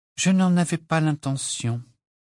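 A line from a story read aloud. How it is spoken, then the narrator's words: Calm reply. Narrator (French): répondit calmement Hermione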